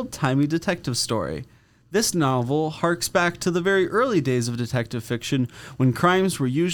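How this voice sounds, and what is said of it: Usual voice. Nothing is said of it.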